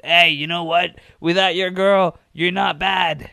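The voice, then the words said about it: Bad imitation of a wrestler's voice. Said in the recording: “my Seth Rollins impression. It's terrible, but you know, he's got a weird voice.”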